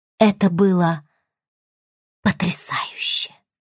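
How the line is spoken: Whisper. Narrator (Russian): прошептала наконец

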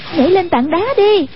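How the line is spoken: Crying out. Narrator (Vietnamese): Hoàng Dung kêu lên

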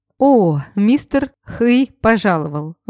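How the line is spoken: Forced out through laughter. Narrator (Russian): выдавила из себя сквозь смех

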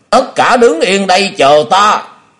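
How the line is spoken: Loud yell. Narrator (Vietnamese): Hoa Dân nghe vậy liền thét lớn

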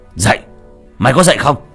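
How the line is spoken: Shout. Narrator (Vietnamese): lời quát

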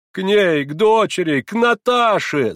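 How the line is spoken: Shouting. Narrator (Russian): закричала она

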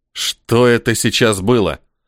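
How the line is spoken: Growled. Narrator (Russian): Прорычал я

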